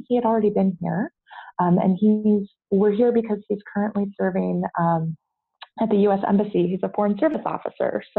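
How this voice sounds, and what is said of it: American English accent. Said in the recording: “as you can maybe tell from my accent, I'm not Belgian. ... I'm an American”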